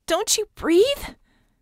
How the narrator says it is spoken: screeched

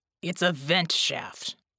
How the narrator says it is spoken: Jack growled

